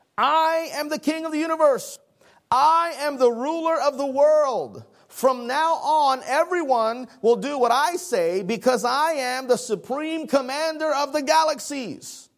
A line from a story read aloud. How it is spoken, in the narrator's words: The shouting was a person saying